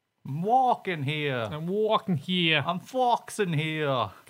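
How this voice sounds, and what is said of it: Put-on New York accent. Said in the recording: “He was from New York. ... Can't do accents.”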